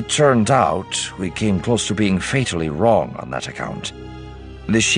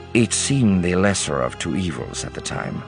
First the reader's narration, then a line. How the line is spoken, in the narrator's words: Card said grimly